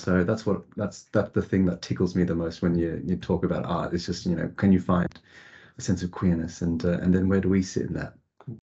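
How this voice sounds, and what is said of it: Australian accent. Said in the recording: “if you haven't spotted the accent already, it's Aussie”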